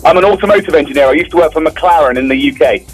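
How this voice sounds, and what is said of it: Strong Texas accent. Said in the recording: “he's got that strong Houston accent.”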